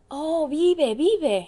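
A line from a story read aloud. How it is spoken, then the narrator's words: Many voices exclaiming. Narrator (Spanish): exclamaron todos los pintores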